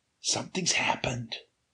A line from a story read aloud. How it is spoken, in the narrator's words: he whispered